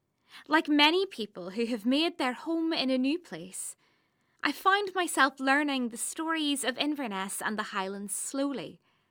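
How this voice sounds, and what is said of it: Non-Scottish accent. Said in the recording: “you'll have gathered from my accent that I didn't grow up here in Scotland”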